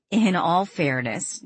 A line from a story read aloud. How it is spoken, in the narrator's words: Danielle chuckled